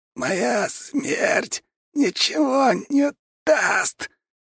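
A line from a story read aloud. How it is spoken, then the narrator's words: Choked wheezing. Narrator (Russian): хрипел Сапсан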